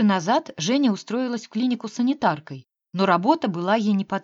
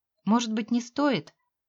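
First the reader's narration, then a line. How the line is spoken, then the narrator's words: Gentle objection. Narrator (Russian): мягко возразила Мила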